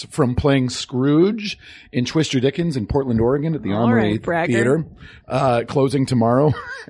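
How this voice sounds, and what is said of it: Slightly hoarse voice. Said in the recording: “my voice is a little hoarse ... if my voice had not been so hoarse”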